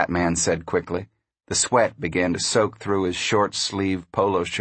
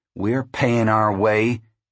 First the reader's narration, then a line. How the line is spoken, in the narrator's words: he said fiercely